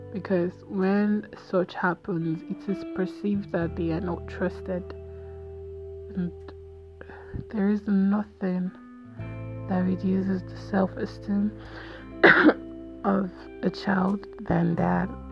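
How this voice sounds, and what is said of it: Hoarse, fading voice. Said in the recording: “I am losing my voice bit by bit”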